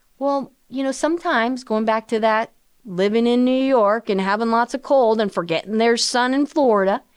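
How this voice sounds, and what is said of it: Put-on Southern accent. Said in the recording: “that southern accent all of a sudden came up”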